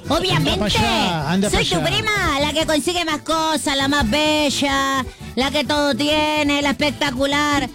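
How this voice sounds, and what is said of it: Put-on Argentine Spanish accent. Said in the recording (Spanish): “¿No me conoces este acento? ... Soy la Argentina olímpica.”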